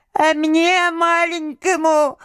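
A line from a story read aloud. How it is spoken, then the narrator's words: Thin little voice. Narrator (Russian): заговорил тоненьким голоском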